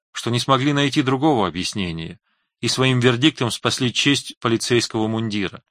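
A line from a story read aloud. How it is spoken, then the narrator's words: Timid, slightly capricious. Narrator (Russian): сказала Фэй, робко и чуть капризно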